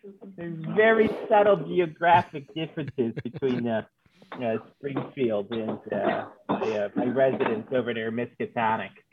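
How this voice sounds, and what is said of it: Put-on Massachusetts accent. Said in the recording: “That's a very interesting accent you got there ... From back out east, Massachusetts”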